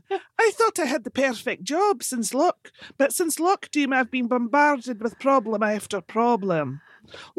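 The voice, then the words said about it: Put-on accent reading letter. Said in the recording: “oh, I'll do the accent.”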